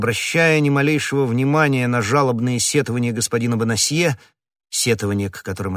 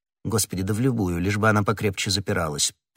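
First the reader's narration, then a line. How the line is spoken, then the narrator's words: Indifferent tone. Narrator (Russian): произнес комиссар безразличным тоном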